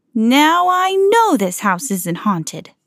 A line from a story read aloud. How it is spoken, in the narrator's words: cried Mickey